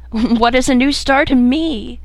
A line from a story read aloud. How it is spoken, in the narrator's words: cried the weeping woman kneeling beside her dead